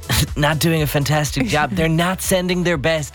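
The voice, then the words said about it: Donald Trump impression. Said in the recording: “in your Trump voice”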